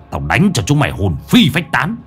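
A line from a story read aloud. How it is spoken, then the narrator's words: Harsh, menacing. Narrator (Vietnamese): Lão Năm gằn giọng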